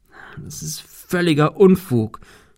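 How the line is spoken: Stammering. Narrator (German): stammelte er

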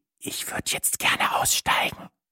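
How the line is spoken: Whispered. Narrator (German): flüsterte ich

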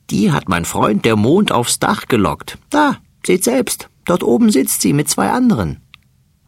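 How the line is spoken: Fat mouse laughing. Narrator (German): lacht der dicke Mäuserich

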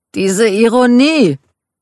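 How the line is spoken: Called out. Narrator (German): rief Michael

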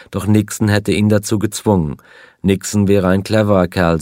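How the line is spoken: Plain. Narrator (German): sagte er

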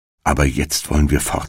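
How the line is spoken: Plain. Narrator (German): sagte Hänsel

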